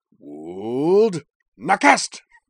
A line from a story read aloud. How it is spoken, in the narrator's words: took a couple of deep breaths, then settled herself and cried